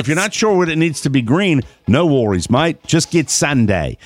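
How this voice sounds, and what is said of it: Put-on Australian accent. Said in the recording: “I was doing an Australian accent”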